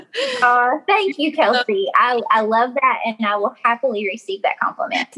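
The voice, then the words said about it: Kentucky accent. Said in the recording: “my accent sounds like cornbread ... I'm from Glasgow, Kentucky ... I'm obsessed with your accent.”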